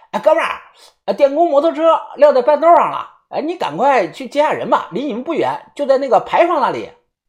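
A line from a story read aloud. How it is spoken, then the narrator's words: Loud booming shout. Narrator (Chinese): 那个大嗓门喊道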